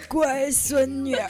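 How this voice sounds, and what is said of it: Imitated old grandpa voice. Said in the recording (Chinese): “会模仿那种老爷爷的声音 ... 老爷爷的声音，对呀，就是这样”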